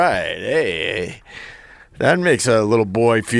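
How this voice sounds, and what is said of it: Usual voice. Nothing is said of it.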